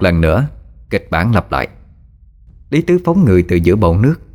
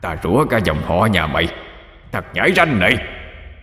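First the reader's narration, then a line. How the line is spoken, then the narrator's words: Squealing roar. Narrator (Vietnamese): Lý Tứ gầm lên như lợn bị chọc tiết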